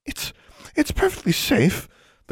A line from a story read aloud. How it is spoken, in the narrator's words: the custodian stammered